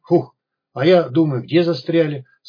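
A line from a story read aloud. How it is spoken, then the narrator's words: Relieved exhale. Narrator (Russian): с облегчением выдохнул сталкер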